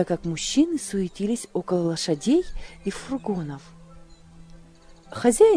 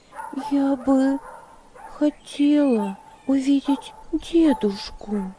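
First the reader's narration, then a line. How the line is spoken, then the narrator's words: Timid. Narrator (Russian): робко ответила Магдалина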